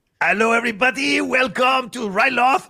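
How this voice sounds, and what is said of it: Terrible put-on French accent. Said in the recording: “I don't want to do a terrible French accent.”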